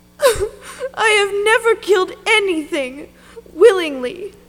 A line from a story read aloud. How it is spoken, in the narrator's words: she sobbed